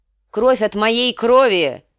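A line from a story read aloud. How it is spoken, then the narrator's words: Shouted out. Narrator (Russian): выкрикнул Ракхара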